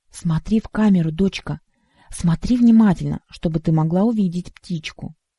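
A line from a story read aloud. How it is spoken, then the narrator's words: Mother's whisper. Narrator (Russian): Мама прошептала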